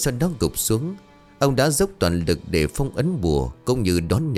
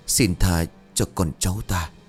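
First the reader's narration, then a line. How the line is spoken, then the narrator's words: Trembling whisper. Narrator (Vietnamese): gương mặt phờ phạc, giả lữ quỷ bên cạnh run rẩy miệng thì thào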